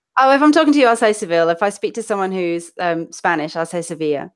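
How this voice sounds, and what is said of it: London accent with northern vowels. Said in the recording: “it's much more of a London accent ... because my family's from Manchester, I say last and past and bath ... people think I'm Australian because I've got this weird smooshed up accent ... I don't hear any Australian in that”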